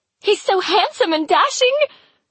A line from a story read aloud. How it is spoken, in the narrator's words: Rosebeth says happily